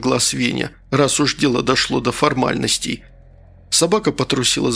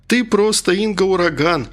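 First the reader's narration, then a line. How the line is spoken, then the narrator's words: Laughing. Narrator (Russian): рассмеялся Коля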